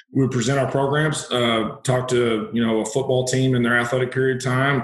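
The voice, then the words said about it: Southern hillbilly twang accent. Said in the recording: “my grammar comes out all the time from my Southwest Missouri roots ... hillbilly twang, as they say, with some Texas mix in there too now and Southern”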